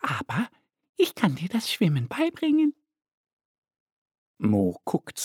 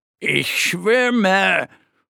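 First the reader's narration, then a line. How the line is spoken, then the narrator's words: Proud call. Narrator (German): ruft er stolz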